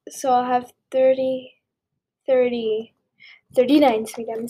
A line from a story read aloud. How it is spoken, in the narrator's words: said Aunt Petunia